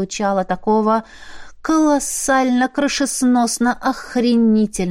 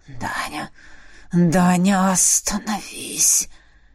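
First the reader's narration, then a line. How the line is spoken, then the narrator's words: Wheezing through teeth. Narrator (Russian): Просипел сквозь зубы Фабрис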